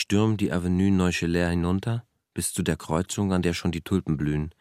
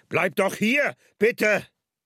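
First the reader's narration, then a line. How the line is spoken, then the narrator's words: Calls after. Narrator (German): Er ruft noch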